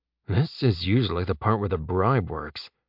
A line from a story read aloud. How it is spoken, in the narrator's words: Jeb muttered to himself